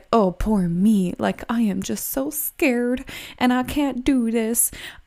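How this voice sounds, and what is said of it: Southern American accent. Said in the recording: “why is this Southern accent coming through?”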